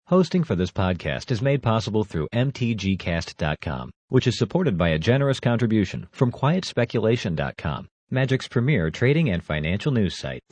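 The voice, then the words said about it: Smooth, polished radio-announcer voice. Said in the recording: “You have such a fucking radio voice”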